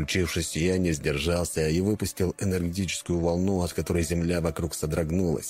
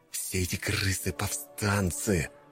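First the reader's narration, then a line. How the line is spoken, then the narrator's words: Hissing through teeth. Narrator (Russian): прошипел я сквозь зубы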